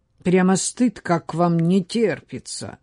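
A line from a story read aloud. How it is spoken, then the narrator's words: Grumbled. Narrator (Russian): проворчал он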